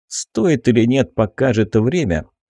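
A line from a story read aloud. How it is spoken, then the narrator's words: Wry snort. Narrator (Russian): хмыкнул я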